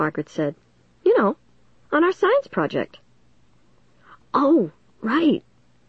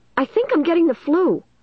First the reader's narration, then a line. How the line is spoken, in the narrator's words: I blurted out